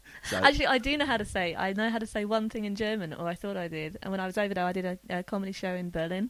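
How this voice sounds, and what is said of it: British English accent. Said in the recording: “You moved over from the UK. Oh, for those who haven't picked up the accent”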